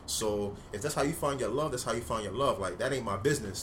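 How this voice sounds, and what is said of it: Talking fast, street hustler pace. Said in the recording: “I'm talking a little fast. I'm trying to slow down. I talk like a nigga in Miami trying to get you to go on that fucking tour bus”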